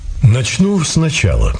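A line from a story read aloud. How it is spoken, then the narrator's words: Calm stranger. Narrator (Russian): спокойно сказал незнакомец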